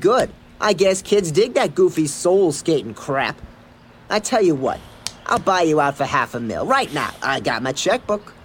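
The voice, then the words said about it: Sniveling New Jersey accent. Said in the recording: “he had that Jersey accent, so he's just that the sniveling...”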